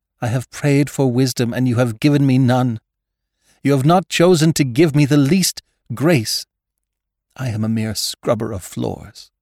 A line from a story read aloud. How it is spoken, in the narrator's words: exclaiming angrily